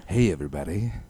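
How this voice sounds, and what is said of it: Announcer voice. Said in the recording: “go from talking normally to like announcer voice”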